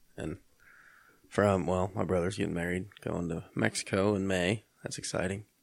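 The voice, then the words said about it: Flat, unenthusiastic voice. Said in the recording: “I'm more excited than my voice sounds.”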